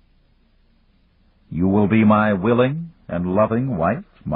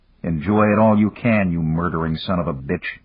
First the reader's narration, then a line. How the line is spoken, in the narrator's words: Dan growled silently